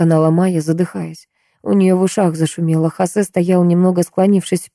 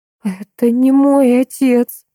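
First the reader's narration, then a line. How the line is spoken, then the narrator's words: Frightened breathy gasp. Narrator (Russian): выдохнула Майя, испуганно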